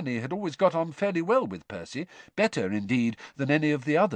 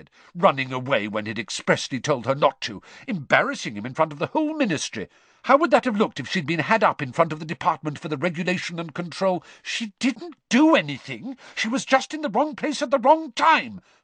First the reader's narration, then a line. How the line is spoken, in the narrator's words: Hermione snapped at Percy